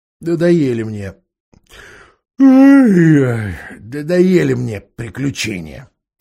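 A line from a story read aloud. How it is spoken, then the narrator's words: Displeased mutter. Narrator (Russian): недовольно буркнула Джилл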